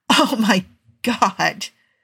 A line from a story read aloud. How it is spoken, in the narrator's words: he managed between paroxysms of laughter